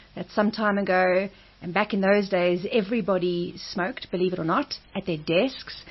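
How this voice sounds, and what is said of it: Strong radio presenter voice. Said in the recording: “you've got a strong radio voice. I can hear that.”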